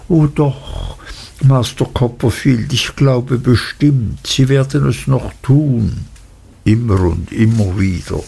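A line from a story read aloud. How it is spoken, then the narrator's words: Gentle reply. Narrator (German): antwortete Uriah sanft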